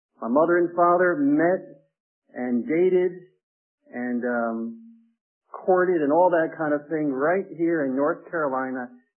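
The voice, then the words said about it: New Jersey twang. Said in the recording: “you'll hear my New Jersey twang in my voice”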